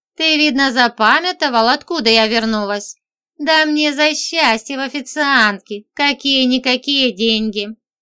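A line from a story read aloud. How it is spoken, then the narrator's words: Laughing. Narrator (Russian): засмеялась я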